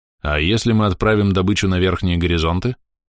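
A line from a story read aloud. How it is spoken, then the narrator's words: Plain. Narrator (Russian): спросил Андрей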